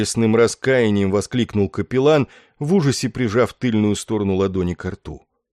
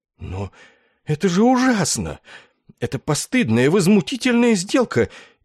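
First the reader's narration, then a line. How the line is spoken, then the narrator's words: Frightened exclamation. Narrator (Russian): Испуганно полупривскочив со стула, воскликнул капеллан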